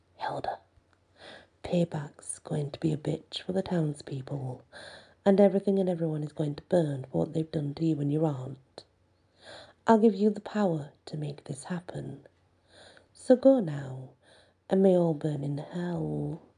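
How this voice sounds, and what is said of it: Creepy menacing voice. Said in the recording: “creepy voice”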